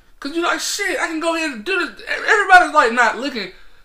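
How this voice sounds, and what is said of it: Talking loudly and passionately. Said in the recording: “why I'm talking so loud”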